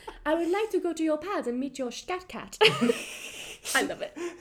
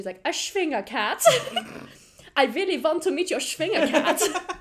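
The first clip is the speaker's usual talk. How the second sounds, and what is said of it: Eva Gabor impression, not French. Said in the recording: “Eva was not even attempting a French accent here”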